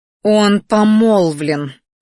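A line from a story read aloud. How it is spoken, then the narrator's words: Growled. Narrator (Russian): рыкнула Лиса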